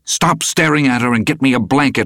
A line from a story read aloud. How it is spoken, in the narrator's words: I snapped at him